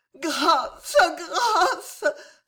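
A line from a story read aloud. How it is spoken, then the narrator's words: Sobbing tormented wife. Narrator (French): sanglota l'épouse martyre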